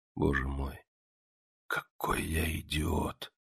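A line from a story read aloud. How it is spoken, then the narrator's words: Whisper. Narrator (Russian): прошептал он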